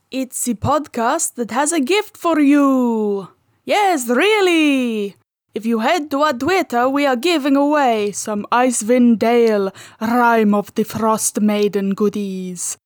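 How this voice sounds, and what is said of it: Speaks in a put-on accent. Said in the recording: “by the quality of this accent alone”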